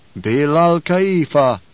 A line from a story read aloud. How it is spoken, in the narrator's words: intoned the troop